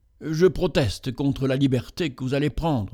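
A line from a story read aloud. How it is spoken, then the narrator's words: Priest's embarrassed tone. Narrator (French): dit enfin le prêtre d'un ton embarrassé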